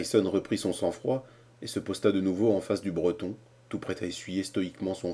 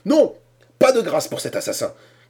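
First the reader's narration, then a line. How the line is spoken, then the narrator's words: Shouted. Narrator (French): cria Cornelius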